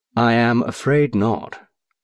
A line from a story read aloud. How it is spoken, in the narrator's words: said quite calmly